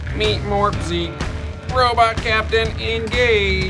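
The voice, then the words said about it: Bad imitation robot voice. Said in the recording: “That's a terrible robot voice.”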